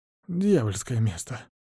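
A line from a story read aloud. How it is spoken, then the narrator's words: Sudden detached muttering. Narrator (Russian): вдруг начинает отстраненно бормотать юркая личность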